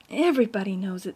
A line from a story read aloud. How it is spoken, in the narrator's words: said Ruby bitterly